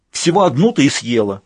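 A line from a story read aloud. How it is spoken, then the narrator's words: Barked. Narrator (Russian): рявкнула она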